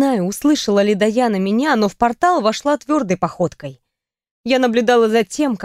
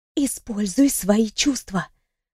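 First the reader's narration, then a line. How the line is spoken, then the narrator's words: Whisper. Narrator (Russian): шепнула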